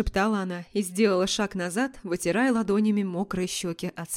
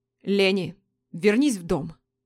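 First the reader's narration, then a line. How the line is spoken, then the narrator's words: Commanding order. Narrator (Russian): Отдал приказ Дерек, грозно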